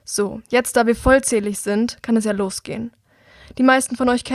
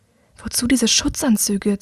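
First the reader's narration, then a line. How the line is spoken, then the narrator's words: Woman hissing. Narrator (German): zischt sie ihm zu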